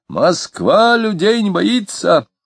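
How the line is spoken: Reassuring, dashing shout. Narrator (Russian): С крыльца через голову Клима кто-то крикнул успокоительно и даже с удальством

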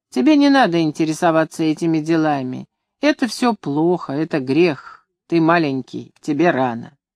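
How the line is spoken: Quiet chuckling. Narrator (Russian): тихонько усмехался и говорил

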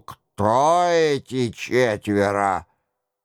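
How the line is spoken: Grumbled. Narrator (Russian): Роншероль буркнул

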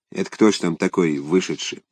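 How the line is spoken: Quiet question. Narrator (Russian): первый сосед тихо спросил

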